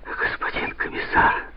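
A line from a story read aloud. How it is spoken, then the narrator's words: Breathy exhale. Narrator (Russian): выдохнул из себя Реджис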